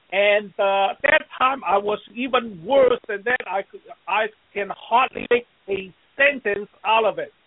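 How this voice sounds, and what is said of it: Chinese-accented English. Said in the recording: “my background, being a Chinese background, and I did not speak, you know, perfect English ... I still have some accent”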